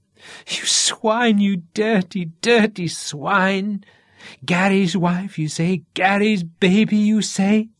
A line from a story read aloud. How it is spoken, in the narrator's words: She laughed wildly through her screaming